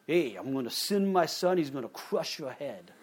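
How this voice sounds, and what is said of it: Weak put-on New York mafia accent. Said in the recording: “Sounds very mafia-like. ... I can't do a good New York accent. Don't expect me to. I'm not from there.”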